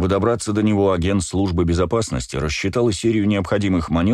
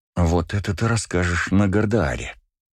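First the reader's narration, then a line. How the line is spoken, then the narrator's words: Said through gritted teeth. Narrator (Russian): процедила Девика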